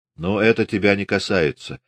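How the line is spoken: Cold. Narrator (Russian): холодно сказал Григорий

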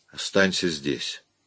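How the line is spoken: Soft, quiet. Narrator (Russian): тихонько проговорил Уэнт

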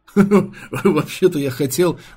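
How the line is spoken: Choking with laughter. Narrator (Russian): давясь хохотом, сообщил Верш

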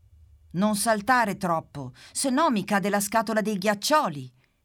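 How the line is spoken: Shouted. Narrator (Italian): grida la Pimpa

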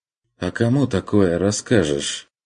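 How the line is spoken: Dejected question. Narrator (Russian): спросил уныло

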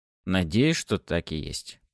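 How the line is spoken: Muttered. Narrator (Russian): пробормотал я

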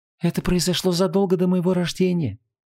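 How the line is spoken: Soft reply. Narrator (Russian): мягко ответила Инанна

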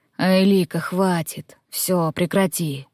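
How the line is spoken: Breathed into ear. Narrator (Russian): выдохнули мне в ухо

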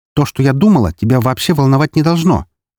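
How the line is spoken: Sharp. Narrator (Russian): резко сказала Мария

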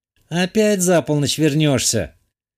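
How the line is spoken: Girl's sighing question. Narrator (Russian): Вздохнув поинтересовалась девушка

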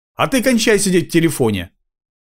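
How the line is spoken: Irritated bark. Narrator (Russian): Раздраженным тоном рявкнул он

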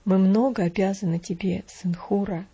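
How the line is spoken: Solemn tone. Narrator (Russian): сказал он своим торжественным тоном

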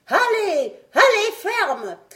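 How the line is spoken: Doctor shouting. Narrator (French): criait le docteur

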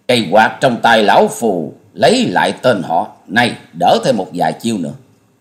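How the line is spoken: Masked man bursting out laughing. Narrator (Vietnamese): Gã áo vàng bịt mặt cười phá lên

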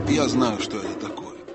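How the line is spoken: Plain. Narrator (Russian): сказал Хмур

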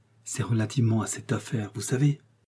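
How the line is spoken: Low voice. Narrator (French): Puis, d'une voix basse

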